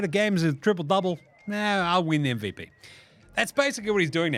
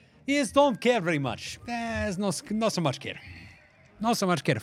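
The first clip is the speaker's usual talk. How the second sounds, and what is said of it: Serbian accent impression of Nikola Jokic. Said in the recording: “you do it a Serbian accent though”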